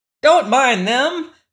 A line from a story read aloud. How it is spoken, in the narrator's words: cried the gnome king